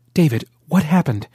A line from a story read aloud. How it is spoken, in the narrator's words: Ran asked urgently